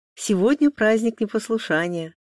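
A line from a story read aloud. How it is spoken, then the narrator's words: Joyful. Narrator (Russian): радостно сказала Маша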